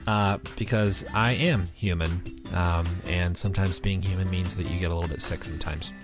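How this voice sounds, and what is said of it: Voice sounds weird from a cold. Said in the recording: “I have a cold. So if my voice sounds weird this episode, or if I have to clear my throat a bunch”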